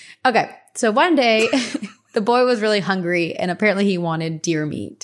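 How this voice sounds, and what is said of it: Usual voice. Nothing is said of it.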